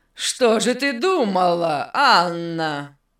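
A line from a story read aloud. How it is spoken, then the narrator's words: Unkind laugh. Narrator (Russian): Беннет недобро засмеялся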